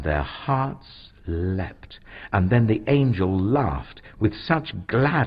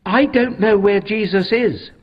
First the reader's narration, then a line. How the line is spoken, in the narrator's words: Mary said urgently